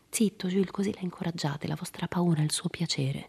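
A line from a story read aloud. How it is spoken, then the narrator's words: Quiet undertone. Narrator (Italian): Jim disse a Jules sottovoce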